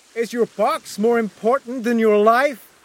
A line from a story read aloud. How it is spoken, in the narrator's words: I shouted